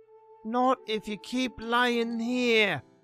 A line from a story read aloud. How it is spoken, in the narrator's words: Tommy groaned back